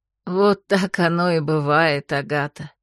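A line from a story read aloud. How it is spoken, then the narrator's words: Soft laugh. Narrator (Russian): негромко рассмеялась моя собеседница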